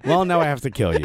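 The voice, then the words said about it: Imitates another person's voice. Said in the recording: “that was my Christian Polanco impression”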